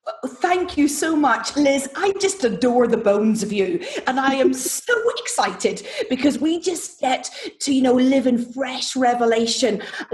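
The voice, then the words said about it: Irish accent. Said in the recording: “this accent is Irish”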